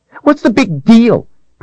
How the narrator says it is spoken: Princess Violet snapped

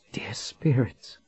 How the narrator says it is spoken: she whispered

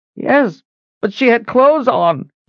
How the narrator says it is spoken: he whined

